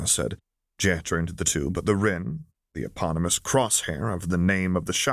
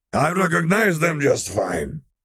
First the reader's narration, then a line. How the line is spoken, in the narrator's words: he snapped